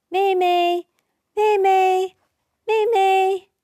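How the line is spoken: Loud calling. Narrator (Chinese): 佳佳 大声叫

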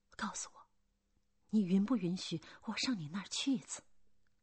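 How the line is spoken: Soft, quiet. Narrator (Chinese): 格拉齐亚轻声说

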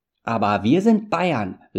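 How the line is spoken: Calling out. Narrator (German): rief Japhet

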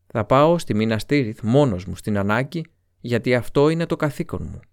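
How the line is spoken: Plain. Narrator (Greek): είπε ο Μπόρομιρ

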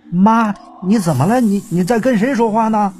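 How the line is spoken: Anxious repeated calling. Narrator (Chinese): 老太太家属就一个劲儿的叫那老太太

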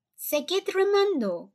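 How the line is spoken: Shouting. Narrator (Spanish): gritó el señor Wonka

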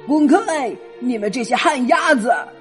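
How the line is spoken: Shouting. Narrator (Chinese): 吼道

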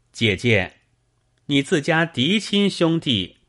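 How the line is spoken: Calm, cheerful calling. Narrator (Chinese): 张胜不慌不忙，笑嘻嘻的 口中叫道

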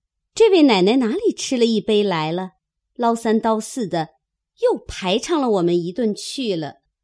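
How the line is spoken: Laughing. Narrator (Chinese): 晴雯等笑说

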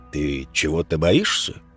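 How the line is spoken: Ingratiating, insinuating question. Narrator (Russian): вкрадчивым голосом поинтересовался Тихон

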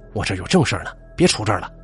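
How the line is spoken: Angry. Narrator (Chinese): 张大方怒气冲冲的

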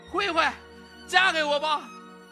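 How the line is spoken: Loud shouting. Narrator (Chinese): 蒋云超……就大声喊起来

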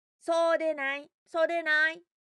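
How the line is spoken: Shouting together in chorus. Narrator (Japanese): みんな一緒に叫びました

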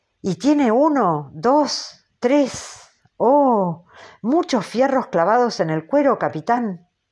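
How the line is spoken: Jerky excited exclamation. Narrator (Spanish): exclamó Kuikek como a saltos

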